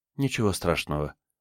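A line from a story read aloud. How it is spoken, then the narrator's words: Soothing. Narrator (Russian): успокоила его Вера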